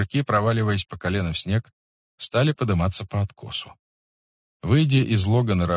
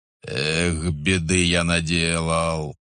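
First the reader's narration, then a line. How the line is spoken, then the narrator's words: Groaning. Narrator (Russian): простонал Савелий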